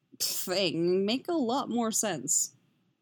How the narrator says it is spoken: he snorts

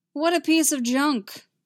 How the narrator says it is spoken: Anakin said loudly

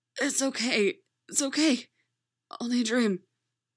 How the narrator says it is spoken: Speaking with her last bit of air, she called out in Russian

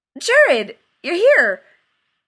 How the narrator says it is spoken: He blurted

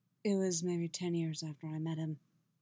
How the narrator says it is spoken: Geralt says, his voice rough, pinched

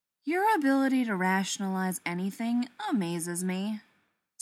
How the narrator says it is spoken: Styles sighs

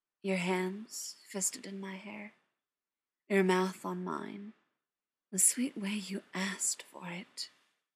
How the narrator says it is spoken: John murmured

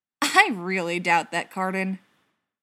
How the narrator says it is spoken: Travis scoffed

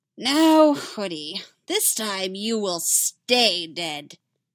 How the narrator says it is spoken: the Joker cackles

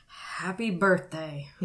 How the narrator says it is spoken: he mumbled

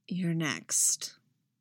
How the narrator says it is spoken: he murmured against Han's mouth

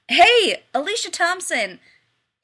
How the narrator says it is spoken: called out

